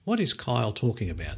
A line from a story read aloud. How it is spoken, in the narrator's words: said Anne